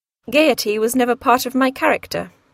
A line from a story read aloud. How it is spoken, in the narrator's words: sighed Edward